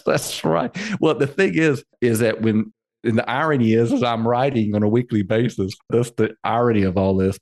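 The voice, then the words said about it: Slight Southern drawl. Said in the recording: “It sounds a little bit of a Southern drawl”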